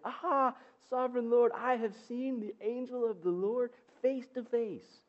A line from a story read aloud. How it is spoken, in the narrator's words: Gideon exclaimed